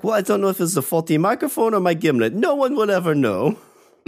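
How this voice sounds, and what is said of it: Convincing put-on foreign accent. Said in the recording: “You've got that accent down.”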